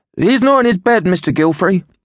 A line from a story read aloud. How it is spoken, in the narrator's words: he blurted out